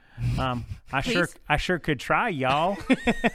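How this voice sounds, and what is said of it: Attempted Southern accent. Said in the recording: “I was born in the South ... Can you try? ... I could try to have one, but I sound like a dork when I do.”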